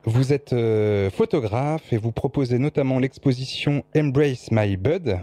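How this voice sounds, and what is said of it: French speaker using English accent. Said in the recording (French): “Voilà mon plus bel accent anglais.”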